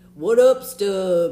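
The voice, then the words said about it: Imitates another person's voice, poorly. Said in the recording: “You do a horrible impersonation of me. Horrible.”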